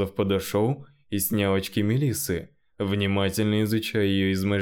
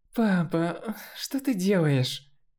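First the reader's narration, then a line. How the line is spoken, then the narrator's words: Displeased groan. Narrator (Russian): Недовольно простонала Мелисса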